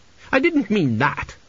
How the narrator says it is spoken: she snapped

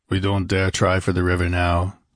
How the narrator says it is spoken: grunted Conan

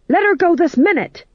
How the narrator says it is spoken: shouted

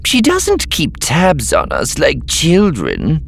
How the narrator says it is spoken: Setchell sneered

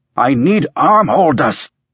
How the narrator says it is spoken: Singh shouted

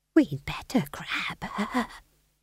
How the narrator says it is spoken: she whispered to McGrath

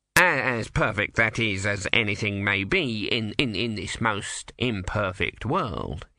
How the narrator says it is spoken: he muttered

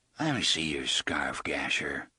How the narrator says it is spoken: he said in a soft, thick voice

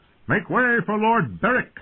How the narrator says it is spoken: the rider shouted

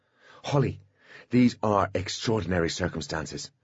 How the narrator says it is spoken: he said urgently

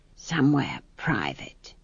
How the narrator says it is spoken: added with a conspiratorial whisper

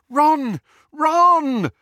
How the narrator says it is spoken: Hermione called, half sobbing

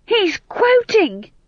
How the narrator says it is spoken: shouted

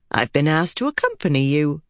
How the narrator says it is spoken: Pavara said cheerfully

